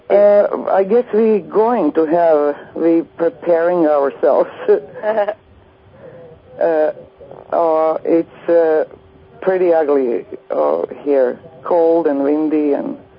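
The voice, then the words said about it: Serbian accent in English. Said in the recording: “you have an accent ... I'm from Europe ... From Serbia”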